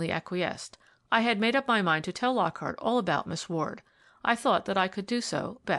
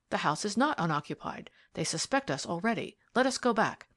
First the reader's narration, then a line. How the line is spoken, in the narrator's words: I whispered